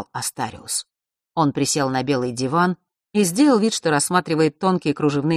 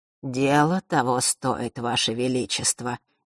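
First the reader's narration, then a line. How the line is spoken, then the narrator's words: Soft gentle speech. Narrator (Russian): мягко произнес часодей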